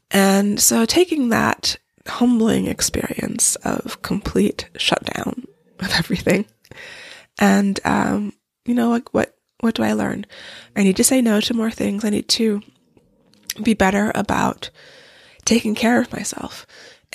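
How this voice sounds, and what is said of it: Weak, recovering-from-illness voice. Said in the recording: “you can probably hear in my voice that I am still recovering”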